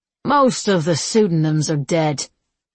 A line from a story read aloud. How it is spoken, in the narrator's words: Raymond said flatly